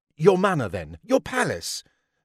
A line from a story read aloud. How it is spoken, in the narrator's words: snapped the men who Lady Mary had forsaken